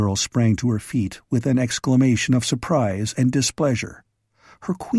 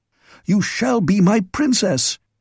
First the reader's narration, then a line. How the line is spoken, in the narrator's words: he cried